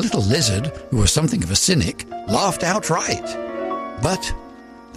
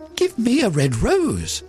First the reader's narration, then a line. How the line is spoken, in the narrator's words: she cried